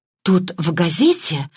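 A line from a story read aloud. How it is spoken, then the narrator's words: Excited, breathless. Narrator (Russian): взволнованно выдохнула Мергатроид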